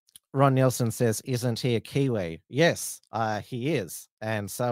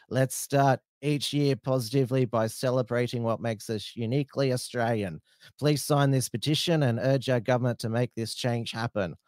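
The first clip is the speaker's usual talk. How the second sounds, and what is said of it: Put-on broad Australian bogan accent. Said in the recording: “How was my Bogan accent there?”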